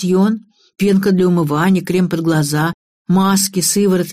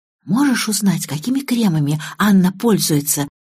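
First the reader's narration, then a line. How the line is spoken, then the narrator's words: Whisper. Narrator (Russian): шепнула наша новая оперативница Лиза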